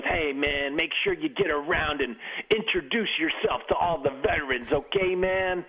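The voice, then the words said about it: Imitates another person's voice. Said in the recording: “Your impersonations are better when we're not on TV.”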